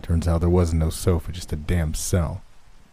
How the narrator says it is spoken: Earl said with a sigh

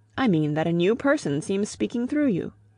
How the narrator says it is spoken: he said

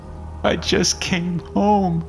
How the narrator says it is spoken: managed between sobs

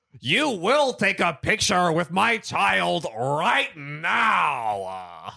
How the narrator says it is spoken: yelling

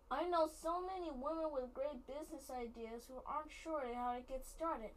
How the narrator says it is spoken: she exclaimed to my father

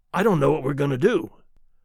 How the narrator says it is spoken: Charlie said in a faint voice

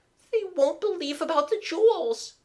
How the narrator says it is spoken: wailed Mabel, suddenly dissolved in tears

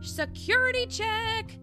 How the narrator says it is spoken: yelled a guard cauliflower

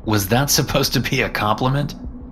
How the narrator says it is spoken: I laughed in disbelief

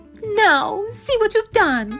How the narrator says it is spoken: cried Bambalona

